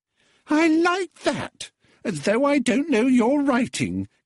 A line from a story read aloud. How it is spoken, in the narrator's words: giggled the girl with an affected shriek